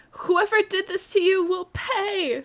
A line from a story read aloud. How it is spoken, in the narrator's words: Scrawny yelled with streams of hot tears pouring down his face